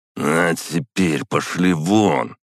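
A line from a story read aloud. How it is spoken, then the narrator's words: Through gritted teeth. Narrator (Russian): процедил Максим Игоревич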